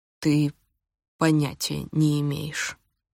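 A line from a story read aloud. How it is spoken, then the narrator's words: Slow reply. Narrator (Russian): медленно ответил он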